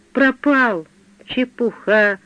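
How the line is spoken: Gentle. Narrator (Russian): ласково сказал я

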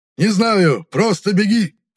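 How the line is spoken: Shouting, voice breaking. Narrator (Russian): прокричал Хаан, срывая голос

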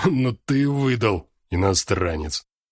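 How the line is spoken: Strained, after coughing. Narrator (Russian): Выдавил из себя барыга, с трудом перестав кашлять

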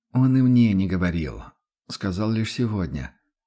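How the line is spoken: Weary, dismissive. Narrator (Russian): устало отмахнулся император

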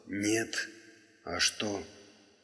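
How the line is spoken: Restrained, impassive voice. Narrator (Russian): Сдержанным, бесстрастным голосом он сказал

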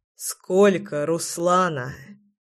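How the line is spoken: Hoarse, near collapse. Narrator (Russian): прохрипел я, балансируя на грани

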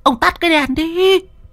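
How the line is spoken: Woman shouting. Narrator (Vietnamese): Mụ Điều hét lên

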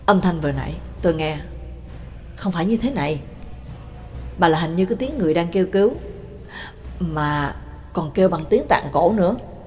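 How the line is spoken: Cold whisper. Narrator (Vietnamese): Cường Ba lạnh giọng thì thầm

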